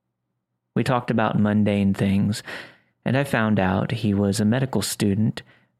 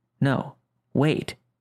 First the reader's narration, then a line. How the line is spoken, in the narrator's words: half breathes, half mumbled